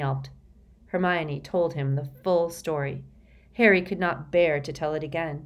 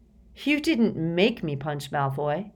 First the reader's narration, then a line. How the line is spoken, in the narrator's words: said Harry angrily